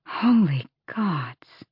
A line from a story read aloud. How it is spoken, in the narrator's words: Aelin breathed